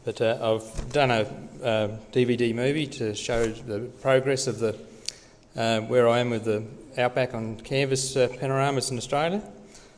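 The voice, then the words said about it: Australian accent. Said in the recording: “a lot of people can't understand me with my Australian accent”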